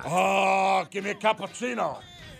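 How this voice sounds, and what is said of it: Al Pacino impression. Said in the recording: “Kevin Spacey do his impression of Al Pacino”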